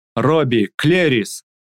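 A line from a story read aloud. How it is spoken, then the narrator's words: Loud booming call. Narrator (Russian): позвала зычным голосом Куруша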